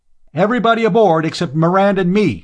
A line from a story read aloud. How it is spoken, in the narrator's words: he said loudly